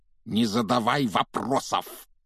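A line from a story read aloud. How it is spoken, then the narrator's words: Barked. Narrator (Russian): рявкнул дядя Вернон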